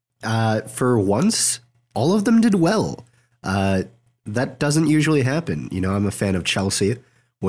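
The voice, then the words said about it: Gravelly, slightly strange voice. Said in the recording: “my voice is a little bit strange, more gravelly, maybe, uh, that's because I'm getting over a cold”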